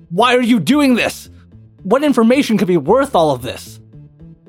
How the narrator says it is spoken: he shouts towards the shepherd

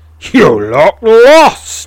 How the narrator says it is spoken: roars

